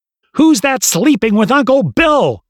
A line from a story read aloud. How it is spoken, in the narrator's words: the little girl yelled